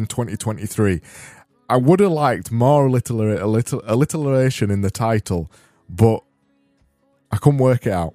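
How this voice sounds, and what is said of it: Silly put-on accent. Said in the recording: “All I'm doing is this silly accent.”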